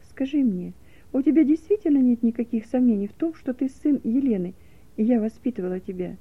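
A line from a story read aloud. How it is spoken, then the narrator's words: Gentle question. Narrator (Russian): нежно спросила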